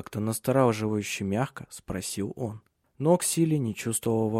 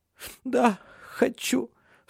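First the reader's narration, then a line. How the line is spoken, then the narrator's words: Sobbing. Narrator (Russian): всхлипнула она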